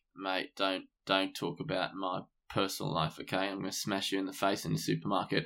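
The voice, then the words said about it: Gruff Australian-accented imitation. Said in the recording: “He's also got an Australian twang ... in interviews, he's a bit fucking gruff”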